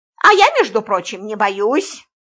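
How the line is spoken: Angry reply. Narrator (Russian): сердито ответила Антонина

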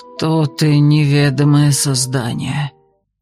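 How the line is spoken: Hoarse question. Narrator (Russian): прозвучал хриплый вопрос

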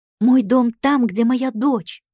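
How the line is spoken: Furious cry. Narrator (Russian): вскрикнула и, сжав кулаки, яростно

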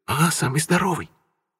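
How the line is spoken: Near whisper. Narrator (Russian): уже почти шепотом отозвался Леха

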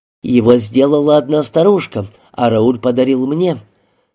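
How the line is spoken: Plain. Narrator (Russian): сказал Рики

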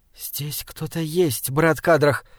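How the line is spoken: Whispered. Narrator (Russian): шепнула Мириамель

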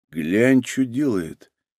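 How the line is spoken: Quiet speech. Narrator (Russian): Цинк тихонько сказал

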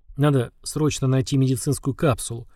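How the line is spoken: Barely audible. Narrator (Russian): еле слышно произнес

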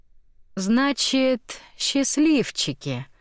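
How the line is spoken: Tender drawl. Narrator (Russian): нежно протянула она

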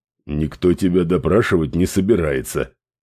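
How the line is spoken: Grumbling. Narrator (Russian): проворчал директор

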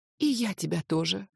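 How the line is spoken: Shy child's whisper. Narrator (Russian): шепнула малютка в нежной стыдливости

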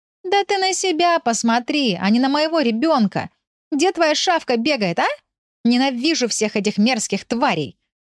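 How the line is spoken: Shrieking. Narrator (Russian): вопила Лиля

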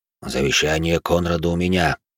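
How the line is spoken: Quiet deep bass. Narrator (Russian): негромко пробасил Ханс

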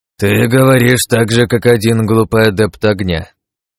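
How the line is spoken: Weary. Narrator (Russian): устало произнес дед

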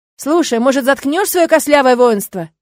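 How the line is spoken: Distant shout. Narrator (Russian): закричал кто-то из соседних окон

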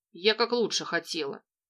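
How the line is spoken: Crestfallen mutter under breath. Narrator (Russian): буркнул себе под нос прибитая справедливой отповедью художница

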